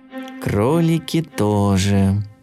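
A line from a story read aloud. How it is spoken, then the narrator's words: Sad mutter. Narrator (Russian): грустно пробормотал Топотун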